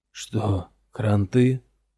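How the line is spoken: Hoarse rasp. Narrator (Russian): прохрипел Йемон

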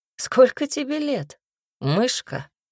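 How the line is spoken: Cheerful question. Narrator (Russian): весело спросил он

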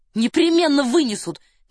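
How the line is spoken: Fervent exclamation. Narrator (Russian): горячо воскликнул Девре

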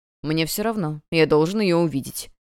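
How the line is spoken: Cold reply. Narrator (Russian): холодно отвечал Томас Биен

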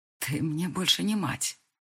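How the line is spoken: Hoarse. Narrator (Russian): произношу хриплым голосом

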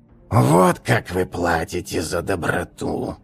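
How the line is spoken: Mumbling with long groan. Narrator (Russian): пробормотал Бачулаз, издавая протяжный стон

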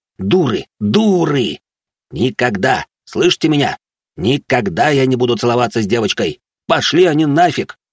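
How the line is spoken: Growling. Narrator (Russian): Зарычал я

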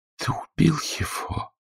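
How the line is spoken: Whispered. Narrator (Russian): прошептала

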